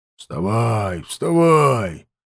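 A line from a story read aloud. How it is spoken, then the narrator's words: Pleased grumbling king. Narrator (Russian): довольно проворчал король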